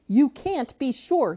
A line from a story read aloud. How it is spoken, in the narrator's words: he snapped